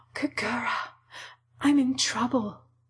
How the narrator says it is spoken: Hinako whispered

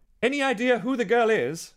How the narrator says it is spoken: Richmond yelled over the wind

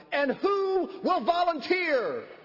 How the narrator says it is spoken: he yelled

